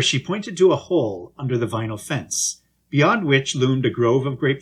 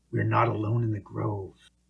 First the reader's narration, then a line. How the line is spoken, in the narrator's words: whispered Sammy Joe